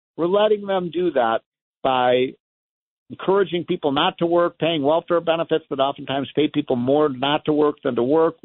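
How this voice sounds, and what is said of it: Angry, heated speaking tone. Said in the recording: “I sound a little angry today, I guess I am. I'm a little angry.”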